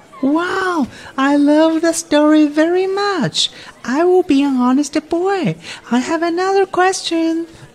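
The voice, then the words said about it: Adult voicing a little child. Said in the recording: “you sound like a little child? ... You sound like you're thirty three days old.”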